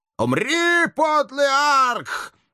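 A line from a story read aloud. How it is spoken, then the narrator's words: Witch howling. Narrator (Russian): Взвыла последняя ведьма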